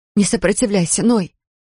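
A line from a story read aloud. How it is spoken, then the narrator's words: Pleading. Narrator (Russian): взмолилась она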